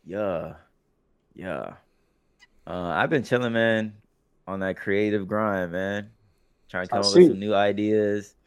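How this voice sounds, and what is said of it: Hoarse, partly lost voice. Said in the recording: “my voice is somewhat gone ... it was a lot of yelling”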